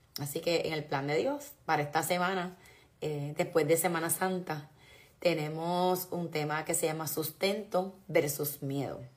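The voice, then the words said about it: Hoarse voice. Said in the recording (Spanish): “estoy enferma, estoy ronca.”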